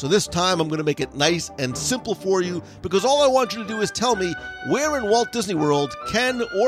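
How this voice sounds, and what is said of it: Usual voice. Nothing is said of it.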